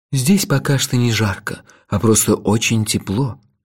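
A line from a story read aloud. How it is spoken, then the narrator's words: Soft. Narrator (Russian): мягко сказал Лойса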